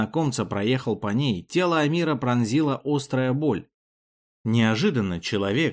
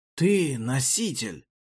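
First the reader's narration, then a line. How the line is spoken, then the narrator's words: Mutter. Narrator (Russian): пробормотал неизвестный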